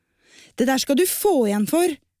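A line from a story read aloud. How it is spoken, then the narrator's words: Shouted. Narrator (Norwegian): ropte Gunn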